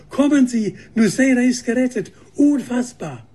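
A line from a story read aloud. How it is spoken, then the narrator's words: Woman calling out. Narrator (German): rief Schwester Katharine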